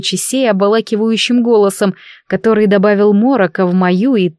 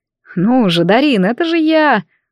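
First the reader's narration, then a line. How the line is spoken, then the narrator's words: Tender voice near temple. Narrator (Russian): ласково прозвучал голос Лучисей где-то у виска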